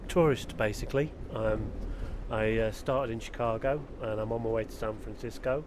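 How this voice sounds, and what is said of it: English accent, not Liverpudlian. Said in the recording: “the accent is not Liverpudlian, because in fact he started off, I think, in Sheffield”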